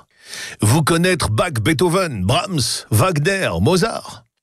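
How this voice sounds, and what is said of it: Put-on German accent in French. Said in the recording (French): “Avec son accent germanique”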